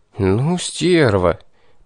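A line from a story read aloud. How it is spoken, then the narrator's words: Stunned inner exhale. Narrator (Russian): Потрясенно выдохнул я про себя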